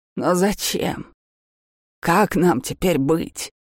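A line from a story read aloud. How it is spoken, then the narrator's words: Sighing. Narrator (Russian): Севир вздохнул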